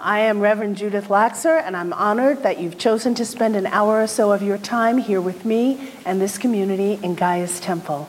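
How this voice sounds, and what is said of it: Husky, raspy Tallulah Bankhead-like voice. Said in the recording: “I'm a little under the weather, so I'll be doing my Tallulah Bankhead impression today. I'm kind of jacked.”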